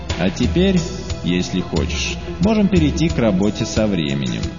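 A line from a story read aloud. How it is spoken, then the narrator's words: Plain. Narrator (Russian): сказал Чан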